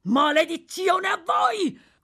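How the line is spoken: Desperate criminal shouting. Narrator (Italian): urlò il delinquente ridotto alla disperazione

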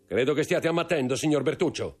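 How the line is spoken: Count speaking coldly. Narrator (Italian): disse freddamente il conte

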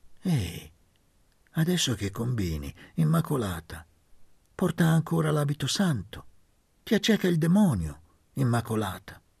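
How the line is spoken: Calm voice. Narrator (Italian): Il marito le disse con voce calma

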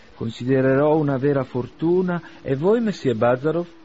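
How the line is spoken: Exclaimed. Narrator (Italian): esclamò Arkady

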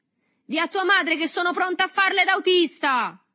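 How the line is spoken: Shout. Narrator (Italian): gridò

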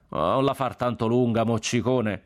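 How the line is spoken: Shout from crowd. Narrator (Italian): gridò uno dalla folla

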